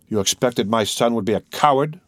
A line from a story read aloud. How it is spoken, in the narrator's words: cried the Count